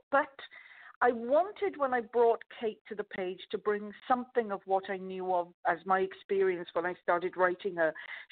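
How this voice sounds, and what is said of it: Softened Welsh accent. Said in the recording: “this is an approximation of a Welsh accent ... it's got a few of the edges and the knocked off it ... the peaks are a bit lower and the valleys are a little higher, but this is essentially a Welsh accent”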